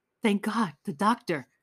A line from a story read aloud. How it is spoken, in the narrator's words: cried Raskolnikov, overjoyed